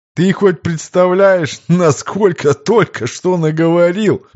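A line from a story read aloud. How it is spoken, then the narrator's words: Laughing, unable to hold back. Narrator (Russian): Не выдержав, хохотнул Виктор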